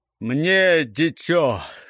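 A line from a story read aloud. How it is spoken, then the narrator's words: Growled through teeth. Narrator (Russian): зарычал сквозь зубы Гуляй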